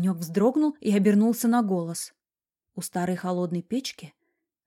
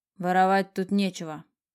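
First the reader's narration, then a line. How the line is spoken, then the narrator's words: Stern old man. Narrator (Russian): строго заметил старик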